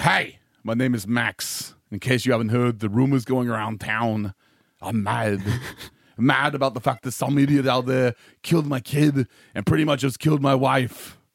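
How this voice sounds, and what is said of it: Wild put-on accent. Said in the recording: “Your accent is as wild as mine.”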